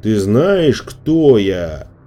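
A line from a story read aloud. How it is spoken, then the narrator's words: Booming. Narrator (Russian): прогремел снеговик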